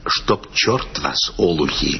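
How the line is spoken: Whispered. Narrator (Russian): Он только сказал нам шепотом

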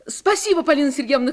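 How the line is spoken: Shouting. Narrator (Russian): крикнула Таня

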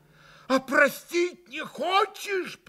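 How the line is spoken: Frantic reproachful shout. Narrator (Russian): прокричал Митя Грушеньки с безумным упреком

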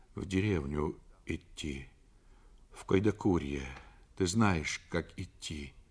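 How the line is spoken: Muttering. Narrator (Russian): Федя тут же забормотал

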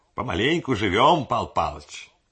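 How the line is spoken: Brisk crisp old man. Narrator (Russian): бодро отчеканил старик

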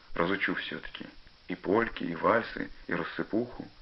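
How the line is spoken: Quiet and dreamy. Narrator (Russian): тихо, мечтательно сказал Пашка

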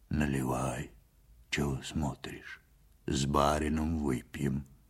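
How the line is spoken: Low hoarse voice. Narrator (Russian): сказал Ваньке глухим, с хрипотцой голосом

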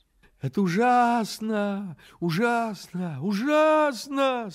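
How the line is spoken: Moaning, easily upset rabbits. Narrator (Russian): стонали кролики, от природы очень впечатлительные

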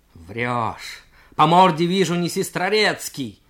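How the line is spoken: Yelling. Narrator (Russian): заорал юнкер

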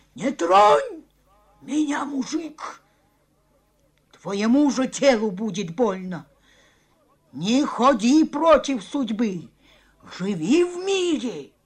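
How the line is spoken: Wild owl-like cackling shout. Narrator (Russian): она захохотала, как ночной филин, и диким голосом закричала

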